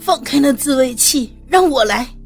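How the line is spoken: Reckless shout. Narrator (Chinese): 不顾一切的喊道

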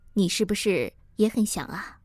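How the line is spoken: Low-voiced question. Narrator (Chinese): 还嘴里低声的问我

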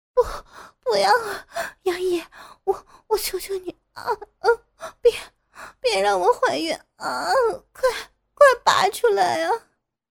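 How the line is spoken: Breathless pleading. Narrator (Chinese): 傅菊英娇喘着哀求

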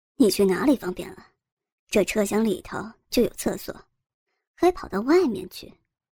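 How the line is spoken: Laughing. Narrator (Chinese): 吕胜强笑道

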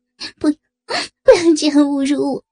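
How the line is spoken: Sobbing, trembling. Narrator (Chinese): 诗雅呜咽一声……颤声道

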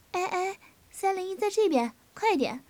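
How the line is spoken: Calling out. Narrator (Chinese): 香婷叫道

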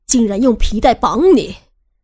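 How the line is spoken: Loud shouting. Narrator (Chinese): 汉叔 大声的吼着

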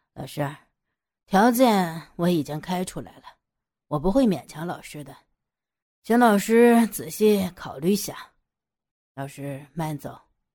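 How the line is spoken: Calm, unbothered. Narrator (Chinese): 杨野也不生气，淡淡的说

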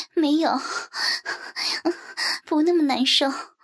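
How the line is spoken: Panting, laughing. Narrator (Chinese): 我一边喘息着，一边笑着回头对他说

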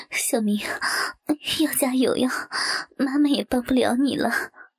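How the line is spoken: Laughing. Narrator (Chinese): 笑着说道

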